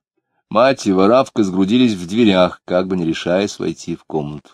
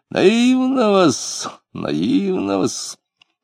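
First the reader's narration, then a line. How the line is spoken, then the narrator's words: Lip-smacking mutter. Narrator (Russian): Лютов, чмокал губами, бормотал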